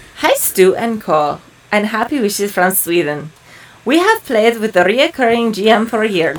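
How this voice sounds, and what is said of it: Put-on Russian-sounding accent. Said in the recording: “What's that accent? ... I have Russian ... All right, Russian.”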